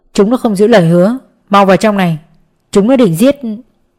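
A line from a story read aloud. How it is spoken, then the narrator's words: Angry, loud. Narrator (Vietnamese): Sinh tức giận nói lớn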